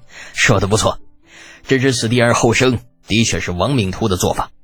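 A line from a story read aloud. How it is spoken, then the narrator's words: Hearty laughter. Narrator (Chinese): 尉迟敬德听得哈哈大笑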